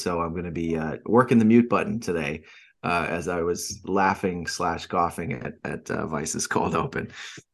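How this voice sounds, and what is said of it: Raspy, sick-sounding voice. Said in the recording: “I do have again the raspy voice from last week has now found its way down into my lungs for some type of sweet bronchitis”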